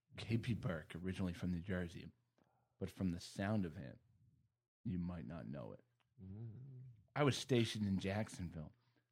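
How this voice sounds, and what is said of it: Sexy reading voice. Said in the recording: “Are you using a sexy voice to read this? ... I am. I am.”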